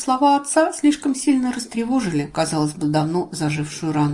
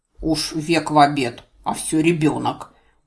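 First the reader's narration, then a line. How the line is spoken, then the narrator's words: Reproachful grumble. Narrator (Russian): Укоризненно проворчал Ларс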